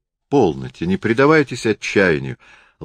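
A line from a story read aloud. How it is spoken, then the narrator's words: Gentle, kind. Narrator (Russian): ласково заговорила Лидия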